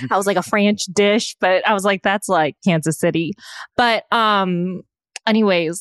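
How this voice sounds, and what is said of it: Usual voice. Nothing is said of it.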